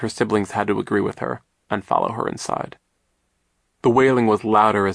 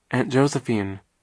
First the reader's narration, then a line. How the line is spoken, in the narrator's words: Klaus said hesitantly